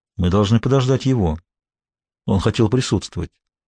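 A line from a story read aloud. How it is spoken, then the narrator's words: Quiet speech. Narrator (Russian): Ван Роу негромко сказал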